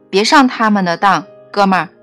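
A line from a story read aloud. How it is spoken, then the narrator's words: Loud. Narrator (Chinese): 埃德大声说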